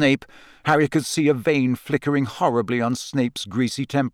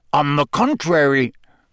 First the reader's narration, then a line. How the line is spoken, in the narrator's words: growled Moody